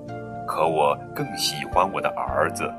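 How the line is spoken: Murmuring. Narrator (Chinese): 爸爸喃喃地说

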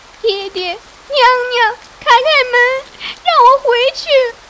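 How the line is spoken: Crying, shouting loudly. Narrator (Chinese): 喝着哭声，扬声高喊

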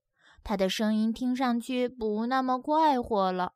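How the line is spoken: Quiet, hushed. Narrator (Chinese): 奥利维亚小声说

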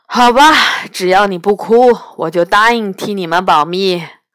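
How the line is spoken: Sighing. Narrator (Chinese): 吃虎叹了口气

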